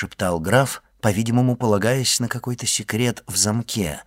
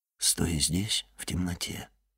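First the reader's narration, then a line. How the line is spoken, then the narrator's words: Quiet. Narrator (Russian): тихо сказал он ему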